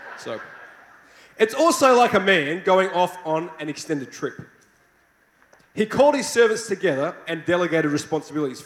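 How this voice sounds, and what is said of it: Australian accent. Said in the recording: “I hope you like my Australian accent.”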